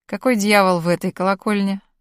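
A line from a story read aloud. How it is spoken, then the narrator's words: Lazy, smirking question. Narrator (Russian): лениво усмехаясь, спросил Галь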